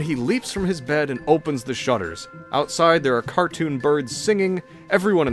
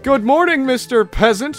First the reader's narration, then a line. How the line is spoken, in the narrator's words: shouts Wenceslaus from his window